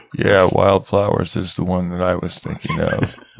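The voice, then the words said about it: Imitates another person's voice. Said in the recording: “That was a good impression. ... It's not at all how I said.”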